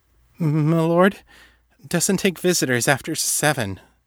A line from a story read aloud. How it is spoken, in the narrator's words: the valet stammered